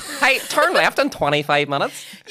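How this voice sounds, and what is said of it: Imitated American Google Maps voice. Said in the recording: “Google Maps, American. ... I just tried to do a voice there.”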